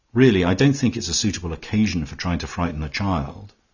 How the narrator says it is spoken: Twyford said sharply

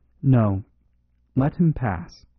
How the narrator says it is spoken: said Father Brown, with a strange, deep sigh that seemed to come from the depths of the universe

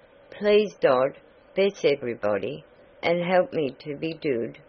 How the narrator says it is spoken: the little fellow, said softly

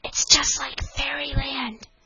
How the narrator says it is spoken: whispered the eldest little girl to the next eldest

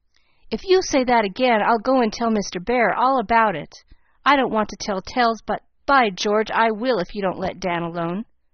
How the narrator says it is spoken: Nat cried out fiercely

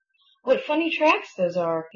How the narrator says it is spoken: exclaimed

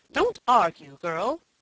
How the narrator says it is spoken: cried the Duchess furiously

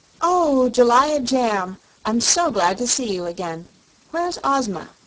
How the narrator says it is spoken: Dorothy with evident pleasure, and exclaimed

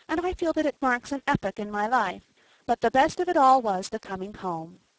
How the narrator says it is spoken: she concluded happily

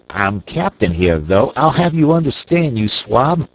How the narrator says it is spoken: shrieked Snipes with a volley of frightful oaths

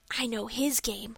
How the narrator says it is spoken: whispered Dick

